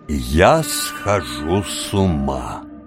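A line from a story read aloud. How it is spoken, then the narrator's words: Slow, almost solemn. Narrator (Russian): сказал медленно, почти торжественно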